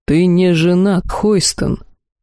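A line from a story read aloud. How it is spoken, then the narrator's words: Gloomy curt retort. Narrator (Russian): мрачно отрезал мужчина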